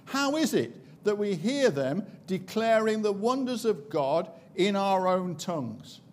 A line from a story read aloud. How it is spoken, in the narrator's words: the visitors to Jerusalem back in Acts chapter 2 exclaimed